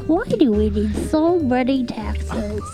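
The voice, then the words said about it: British baby voice. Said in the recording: “do the voice. Do the voice. ... The one, the British baby.”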